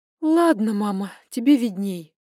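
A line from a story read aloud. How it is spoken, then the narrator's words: Resigned sigh. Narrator (Russian): вздохнула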